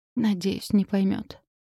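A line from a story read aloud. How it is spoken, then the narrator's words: Frightened whisper. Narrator (Russian): прошептала, прислушиваясь к каждому удару своего сердца и пытаясь пересилить собственный страх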